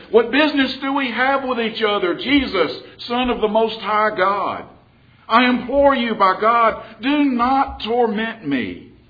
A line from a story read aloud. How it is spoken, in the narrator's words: And shouting with a loud voice, he said